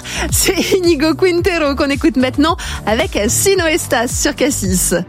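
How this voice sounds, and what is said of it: Put-on Spanish accent. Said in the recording (French): “je vais sortir mon plus bel accent espagnol. J'ai fait quelques années d'espagnol et je pense que ça va se sentir. Ou pas du tout”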